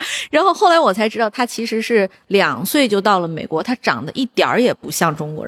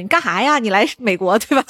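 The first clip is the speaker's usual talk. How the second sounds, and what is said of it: Northeastern Chinese accent, crosstalk-style. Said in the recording (Chinese): “一口标准的东北话，就是那个相声小品里的那种那种东北口音”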